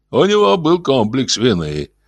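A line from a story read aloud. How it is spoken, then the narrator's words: Brisk, cheerful. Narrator (Russian): бодро продолжал босс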